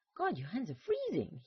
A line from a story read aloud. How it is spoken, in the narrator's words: he yelped